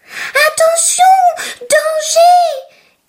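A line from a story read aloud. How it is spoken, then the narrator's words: Small turtle shouting. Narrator (French): crie une petite tortue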